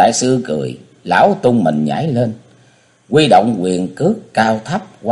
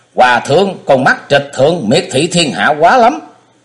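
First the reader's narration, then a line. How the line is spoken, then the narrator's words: Angry loud shout. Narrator (Vietnamese): Ông không khỏi tức bực, lớn tiếng quát thét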